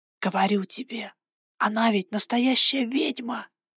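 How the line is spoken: Loud whisper. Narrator (Russian): громким шепотом произнесла Андала

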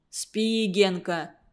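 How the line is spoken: Quiet persuasion. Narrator (Russian): Он тихо убеждал

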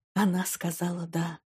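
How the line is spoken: Whispering. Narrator (Russian): прошептал он

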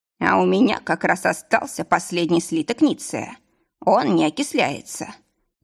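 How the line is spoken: Creaky voice. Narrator (Russian): проскрипел ювелир

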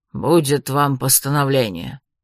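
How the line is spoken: Grumbling. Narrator (Russian): проворчал детектив

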